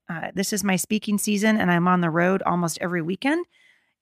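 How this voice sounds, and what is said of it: Hoarse, gravelly, fading voice. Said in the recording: “I want to apologize for my voice, you guys. I feel like I'm losing my voice a little bit... So if you hear a little gravelly in my voice”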